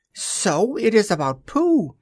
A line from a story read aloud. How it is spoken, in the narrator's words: he squeaked